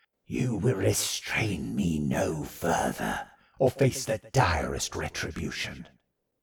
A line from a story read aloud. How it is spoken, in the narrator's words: rasped